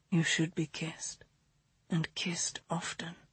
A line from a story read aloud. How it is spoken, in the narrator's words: he whispered